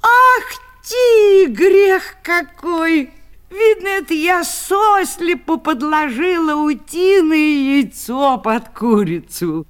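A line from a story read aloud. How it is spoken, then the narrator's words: Old woman shouting. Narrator (Russian): старая Дарья закричала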